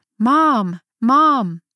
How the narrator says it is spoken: my sister's shouting

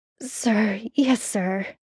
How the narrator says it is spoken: Sam managed to groan

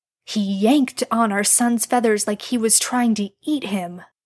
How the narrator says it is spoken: Jared hissed

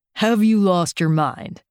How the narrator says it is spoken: I roar

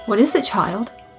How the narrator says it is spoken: Aglae asked

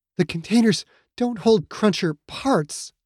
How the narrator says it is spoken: Aya said, that fear making her voice tremble

